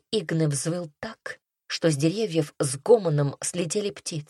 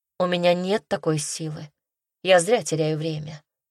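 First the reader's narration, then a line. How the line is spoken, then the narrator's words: Sad. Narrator (Russian): грустно сказала она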